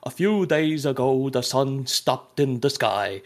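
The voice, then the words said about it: Put-on Swedish accent. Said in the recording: “a guy doing a Swedish accent.”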